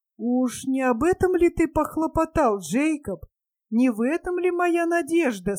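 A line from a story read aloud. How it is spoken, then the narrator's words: Dejected question. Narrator (Russian): спросил он упавшим голосом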